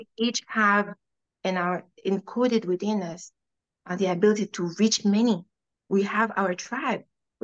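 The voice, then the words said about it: Non-native English accent. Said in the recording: “my accent ... the bad broken English that I put things”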